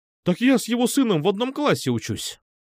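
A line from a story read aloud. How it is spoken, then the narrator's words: Surprised exclamation. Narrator (Russian): удивленно воскликнул я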